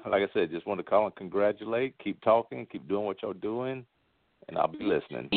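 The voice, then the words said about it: Speaks with a noticeable accent. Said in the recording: “He's got an accent ... I love me an accent”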